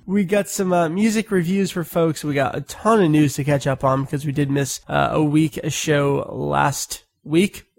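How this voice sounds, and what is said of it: Congested, stuffy sick voice. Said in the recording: “You can probably hear it in my voice a little bit. I'm recovering from a sinus infection”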